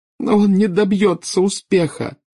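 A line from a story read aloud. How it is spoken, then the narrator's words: Sobbing. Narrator (Russian): рыдала нарцисса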